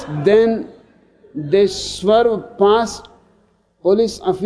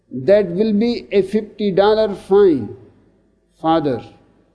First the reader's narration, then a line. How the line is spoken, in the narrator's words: says Muldoon